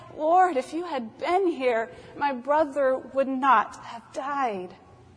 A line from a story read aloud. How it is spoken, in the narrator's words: She falls weeping and she cries